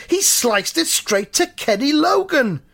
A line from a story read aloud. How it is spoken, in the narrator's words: someone else from the crowd shouts